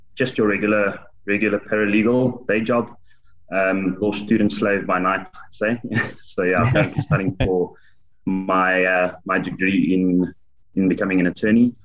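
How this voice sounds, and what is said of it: South African accent. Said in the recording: “Sense an accent as well ... all the way from South Africa”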